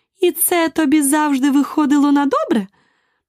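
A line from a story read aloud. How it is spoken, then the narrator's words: Triumphant queen exclaiming. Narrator (Ukrainian): переможно вигукнула королева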